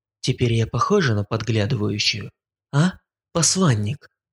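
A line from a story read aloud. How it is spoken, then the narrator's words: Relaxed voice. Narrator (Russian): Это было произнесено уже расслабленным голосом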